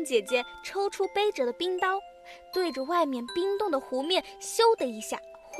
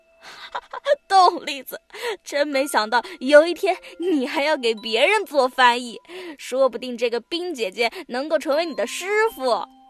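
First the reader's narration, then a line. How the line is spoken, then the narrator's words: Shaking with laughter. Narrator (Chinese): 小仙儿突然捧腹大笑起来，颤抖地说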